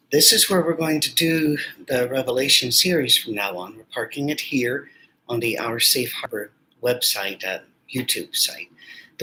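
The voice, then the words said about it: Weak, worn-out voice. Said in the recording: “My voice is a little bit weak ... it's a little worn out.”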